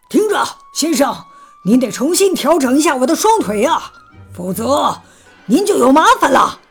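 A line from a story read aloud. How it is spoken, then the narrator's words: Loud shouting. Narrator (Chinese): 另一个青铜雕塑大声嚷道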